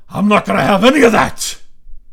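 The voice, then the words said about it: Imitates another person's voice. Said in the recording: “impersonations ... Al Pacino”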